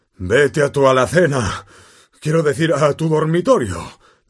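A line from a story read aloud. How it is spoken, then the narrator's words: Panting. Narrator (Spanish): dijo a Harry sin dejar de jadear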